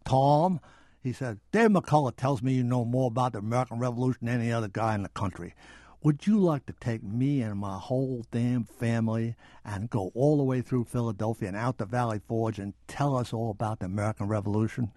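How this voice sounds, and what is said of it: Senator Kennedy's Boston accent impression. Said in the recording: “in his marvelous Boston accent, which you probably get all kinds of letters if I try to imitate it, but I'm going to do it anyway.”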